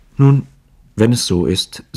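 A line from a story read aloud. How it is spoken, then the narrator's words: Flushed stammering, half crying. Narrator (German): sagte mit glühendem Gesicht, stammelnd und halb weinend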